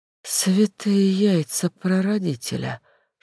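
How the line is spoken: Whispered. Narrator (Russian): шепотом сказала Зефирка, поднимая огромные, совершенно ошарашенные глаза

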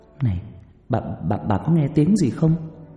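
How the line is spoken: Trembling stammer. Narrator (Vietnamese): Trà run rẩy lắp bắp

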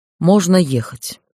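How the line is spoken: Tired command. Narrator (Russian): устало распорядился Дейтар Арияр

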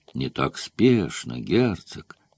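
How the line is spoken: Muttered through teeth. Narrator (Russian): сквозь зубы пробормотал

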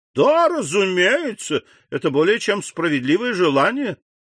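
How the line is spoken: Exclaiming. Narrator (Russian): воскликнул господин де Бувиль

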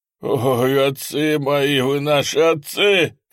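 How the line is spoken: Soldier's pleading shout. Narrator (Russian): кричал солдат, умоляя, чтобы его не трогали

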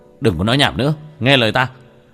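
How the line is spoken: Sharp shout. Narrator (Vietnamese): Tiểu Thất quát lên một tiếng

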